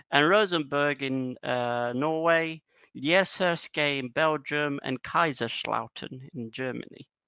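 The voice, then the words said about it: Put-on Dutch accent. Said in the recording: “I said that in a Dutch accent”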